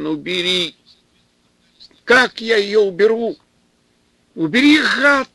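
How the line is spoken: Yelled in strange voice. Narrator (Russian): заорал Степан не своим голосом

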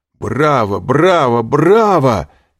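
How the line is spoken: Shouted, mimicking voice. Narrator (Russian): крикнул Альбер, подражая банкиру

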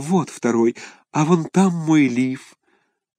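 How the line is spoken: Timid. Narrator (Russian): робко сказала

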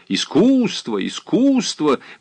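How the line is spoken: Exclaiming. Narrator (Russian): воскликнул сеньор Полици

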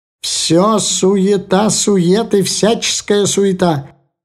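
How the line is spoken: Ominous shout. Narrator (Russian): кричал зловеще Шапель

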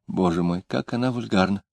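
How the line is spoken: Gleeful whisper. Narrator (Russian): не без радости прошептала

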